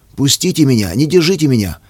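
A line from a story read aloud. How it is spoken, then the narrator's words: Desperate shout. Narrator (Russian): В отчаянии закричал он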